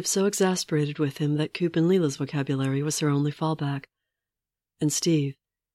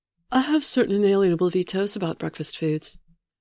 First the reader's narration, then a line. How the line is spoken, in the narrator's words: Natasha said, yawning happily